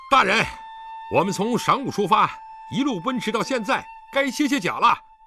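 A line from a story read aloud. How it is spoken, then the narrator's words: Shouting while galloping. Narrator (Chinese): 李元芳一边跃马飞奔，一边向身边马上的狄仁杰叫道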